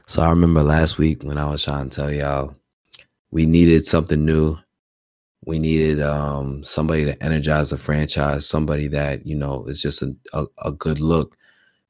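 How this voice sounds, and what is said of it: Whispering, seductive tone. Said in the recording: “Why are you whispering in my ear right now like you're trying to seduce me?”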